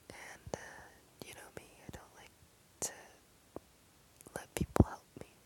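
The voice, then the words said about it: Whispering. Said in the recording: “I don't know why we're whispering. Is it because the walls are thin? ... that's why I'm whispering”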